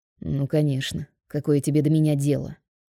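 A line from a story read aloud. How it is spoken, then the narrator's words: Muttering boss. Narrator (Russian): Бормочет босс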